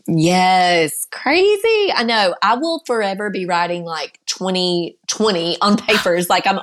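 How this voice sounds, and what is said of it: Noticeable accent, slightly congested voice. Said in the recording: “I'm just going to soak in your accent this entire time ... It's a little funky because I've had a cold”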